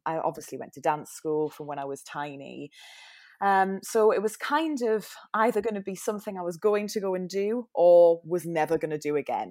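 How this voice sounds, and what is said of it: Newcastle English accent. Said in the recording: “I'm not from London with my weird accent. I'm from Newcastle.”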